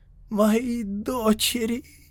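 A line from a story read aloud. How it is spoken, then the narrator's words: Hissed. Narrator (Russian): прошипел он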